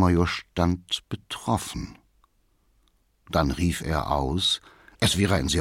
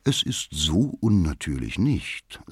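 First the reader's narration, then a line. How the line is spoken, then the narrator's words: Plain. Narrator (German): sagte die Schwester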